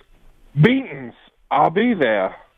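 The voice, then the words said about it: Southern drawl Taz impression. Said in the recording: “It's better with the Southern drawl ... a hillbilly trying to do his best Taz impression”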